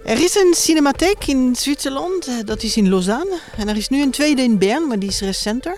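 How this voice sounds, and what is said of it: Swiss French accent in Dutch. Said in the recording (Dutch): “Waar is het accent van? Uit uh, Genève in Zwitserland. Ik ben dus frans Frans-Taliger.”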